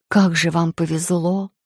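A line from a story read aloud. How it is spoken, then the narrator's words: Envious sigh. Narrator (Russian): вздохнула я с завистью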